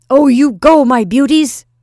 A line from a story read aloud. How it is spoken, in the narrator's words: cried Nicholas